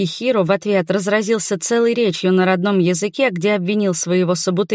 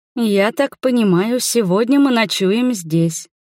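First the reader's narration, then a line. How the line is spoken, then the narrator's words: Perfectly calm, mother. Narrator (Russian): совершенно спокойно сказала мама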